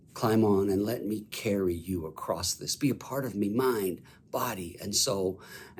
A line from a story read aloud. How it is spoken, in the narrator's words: Jesus very gently whispers